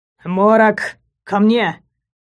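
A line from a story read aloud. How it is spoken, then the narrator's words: Growling command. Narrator (Russian): Рыкнул на животное Дегорд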